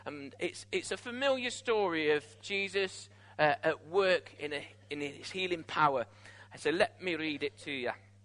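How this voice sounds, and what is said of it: Put-on Scottish accent. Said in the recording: “Don't know why I did a Scottish voice then.”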